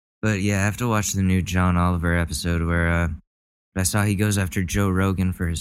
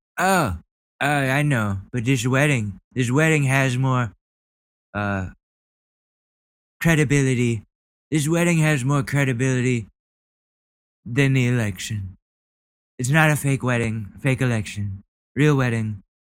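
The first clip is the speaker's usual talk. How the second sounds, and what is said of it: Donald Trump impression. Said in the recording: “my Trump impression is getting worse and worse as the days go on”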